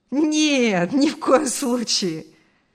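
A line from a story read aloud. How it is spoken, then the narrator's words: Laughing. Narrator (Russian): рассмеялся Артур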